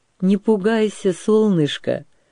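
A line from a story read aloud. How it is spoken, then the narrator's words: Old man, affectionate. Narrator (Russian): ласково сказал старик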